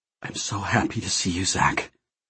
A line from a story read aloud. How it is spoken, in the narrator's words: he whispered, with a slight tremor in his voice